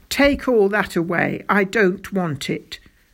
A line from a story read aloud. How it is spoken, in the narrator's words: said King Fred crossly